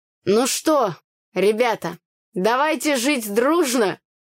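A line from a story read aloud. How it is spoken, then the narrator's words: Happy shout. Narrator (Russian): выкрикнул нам счастливый Митька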